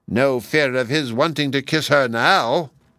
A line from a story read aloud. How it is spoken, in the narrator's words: She said to herself with a wicked laugh